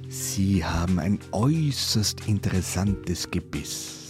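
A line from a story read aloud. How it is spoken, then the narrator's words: Plain. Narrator (German): sagte er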